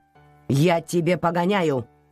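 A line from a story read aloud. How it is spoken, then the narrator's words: Stern grandmother. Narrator (Russian): строго сказала бабушка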